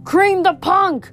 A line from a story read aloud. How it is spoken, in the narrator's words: Clarice screamed